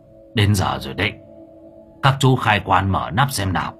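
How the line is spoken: Hoarse old man shouting. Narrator (Vietnamese): tiếng của ông thầy Miên khàn khàn hô to

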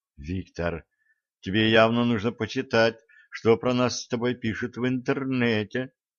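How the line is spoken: Sighing. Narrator (Russian): вздохнула Оля

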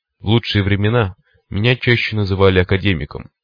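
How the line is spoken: Wry snort. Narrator (Russian): хмыкнул человек в кресле

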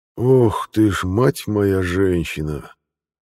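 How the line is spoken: Breathed out. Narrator (Russian): выдохнул Кирилл Владимирович

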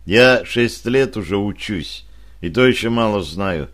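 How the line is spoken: Calm answer. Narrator (Russian): спокойно ответил

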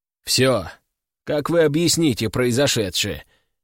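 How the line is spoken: Skeptical snort. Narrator (Russian): хмыкнул Федор

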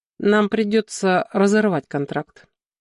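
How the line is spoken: Indifferent tone. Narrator (Russian): закончил Щеглов равнодушным тоном

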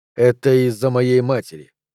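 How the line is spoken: Strangely calm voice. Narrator (Russian): произнес он странно спокойным голосом

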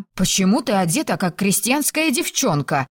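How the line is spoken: Sharp question. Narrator (Russian): резко спросила Филиппа

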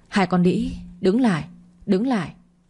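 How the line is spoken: Shrieking scream. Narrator (Vietnamese): tiếng gào thét rít lên

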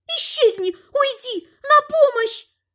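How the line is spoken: Shrieking. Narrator (Russian): визжал Лель

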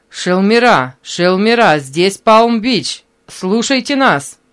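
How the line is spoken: Loud, clear over crackling radio. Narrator (Russian): Послышался треск в наушниках, и затем он громко и ясно услышал голос Мэри

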